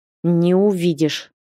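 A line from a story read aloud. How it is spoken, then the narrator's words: Angry retort. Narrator (Russian): зло парировал парень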